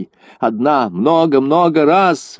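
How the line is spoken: Shouting out. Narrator (Russian): выкрикнула Дуа

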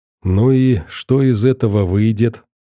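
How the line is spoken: Gloomy musing. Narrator (Russian): мрачно рассуждал парень

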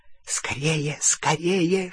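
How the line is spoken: Hissing in ear. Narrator (Russian): шипел ему в ухо крюкохват

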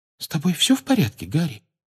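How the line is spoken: Quiet question. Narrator (Russian): тихо спросила Джинни

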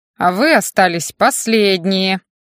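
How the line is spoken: Stern reproach. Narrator (Russian): грозно сдвинув брови, пристыдил староста

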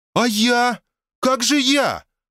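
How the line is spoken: Exclaiming. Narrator (Russian): воскликнула она

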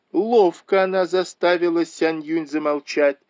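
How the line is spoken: Crowd shouting. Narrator (Russian): закричали все

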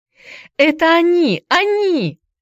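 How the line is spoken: Joyful yelling. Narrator (Russian): вопила Хайди, прыгая от радости

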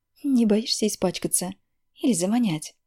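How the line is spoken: Angry question. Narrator (Russian): Зло спрашиваю у него

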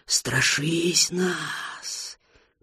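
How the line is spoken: Whispered. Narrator (Russian): прошептал Слир

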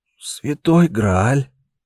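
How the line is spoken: Relieved exhale. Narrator (Russian): выдохнул он, словно сбросил с себя груз всего мира

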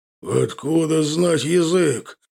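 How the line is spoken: Wolf's roar, fangs clacking. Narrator (Russian): Взревел волк, и его клыки клацнули

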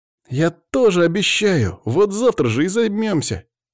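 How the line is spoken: Boy's exclamation. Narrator (Russian): воскликнул мальчик

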